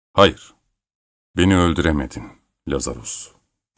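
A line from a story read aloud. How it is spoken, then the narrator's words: Said firmly. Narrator (Turkish): dedi kararlı bir sesle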